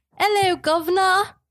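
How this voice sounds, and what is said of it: Weak put-on British accent. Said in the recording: “Let me give you my best British accent. ... I feel like I talk with a mix between like an English accent and an Australian accent because I really suck at doing accents. ... it started off weak, but it finished stronger”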